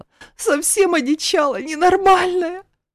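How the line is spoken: Rapid, flustered gabble. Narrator (Russian): Сбивчиво протараторила та

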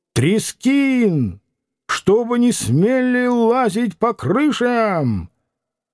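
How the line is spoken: Commanding shout. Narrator (Russian): Чей-то командующий голос крикнул

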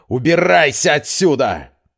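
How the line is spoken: Shouted. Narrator (Russian): он закричал

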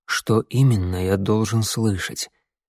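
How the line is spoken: Whisper. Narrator (Russian): Я перешел на шепот

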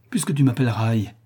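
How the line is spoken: Exasperated exclamation. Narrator (French): s'écria François exaspéré

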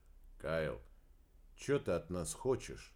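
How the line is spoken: Quiet question. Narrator (Russian): негромко спросил начальник смены

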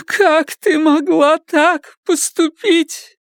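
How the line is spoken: Tearful. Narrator (Russian): Теперь Карла говорила сквозь слезы

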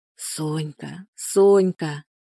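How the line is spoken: Muffled whisper. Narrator (Russian): шептал он, уткнувшись лицом в ее плечо

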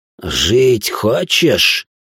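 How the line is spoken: Hissed into ear. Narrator (Russian): прошипел я, наклоняясь к его уху

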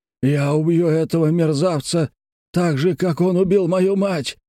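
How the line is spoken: Shouting. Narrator (Russian): закричал он

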